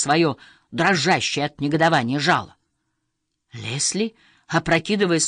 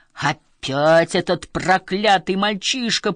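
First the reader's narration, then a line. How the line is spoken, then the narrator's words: Roar. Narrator (Russian): проревел Ларри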